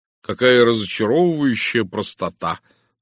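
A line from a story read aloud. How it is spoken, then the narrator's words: Mocking groan. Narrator (Russian): насмешливо простонал я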